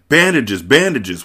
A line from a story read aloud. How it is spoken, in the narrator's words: Wesley cried